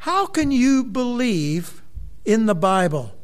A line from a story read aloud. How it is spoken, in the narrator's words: exclaimed a university student